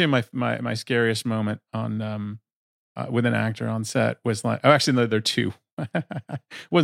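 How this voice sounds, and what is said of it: Usual voice. Nothing is said of it.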